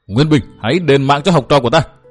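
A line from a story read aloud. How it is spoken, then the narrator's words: Woman shouting. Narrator (Vietnamese): Vừa hét, bà ta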